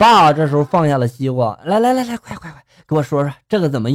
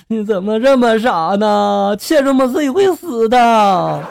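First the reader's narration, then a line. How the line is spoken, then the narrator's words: Mother crying. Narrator (Chinese): 蚯蚓的妈妈哭着就说了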